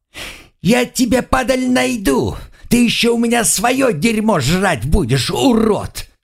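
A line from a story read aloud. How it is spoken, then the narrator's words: Teenager yelling from afar. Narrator (Russian): Подросток, отбежав на безопасное расстояние, заорал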